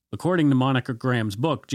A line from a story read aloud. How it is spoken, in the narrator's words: Janet yelled